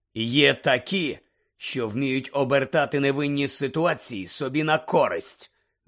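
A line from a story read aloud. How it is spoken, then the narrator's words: Curt, threatening. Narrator (Ukrainian): відрубав Муді погрозливим тоном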